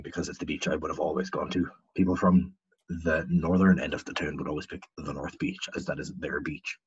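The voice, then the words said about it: Convincing put-on accent. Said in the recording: “we can wrap up that voice. I'm sure your throat's a bit sore from that ... I thought you had that spot on, though. That was a good accent ... That was brilliant”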